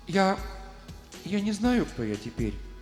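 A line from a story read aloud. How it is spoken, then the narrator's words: Timid. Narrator (Russian): робко проговорила она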